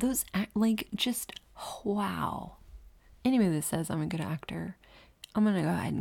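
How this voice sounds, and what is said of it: Usual voice. Nothing is said of it.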